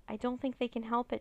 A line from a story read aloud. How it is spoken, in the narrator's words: Dharma said